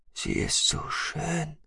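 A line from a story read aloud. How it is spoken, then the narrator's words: Whisper. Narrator (German): flüsterte jemand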